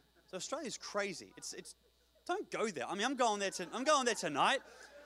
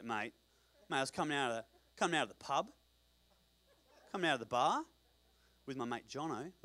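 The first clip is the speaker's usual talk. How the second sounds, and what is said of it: Put-on Australian accent. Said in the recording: “That's an Australian accent.”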